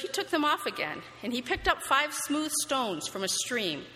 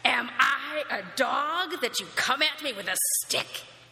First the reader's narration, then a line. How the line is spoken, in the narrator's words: he roared at David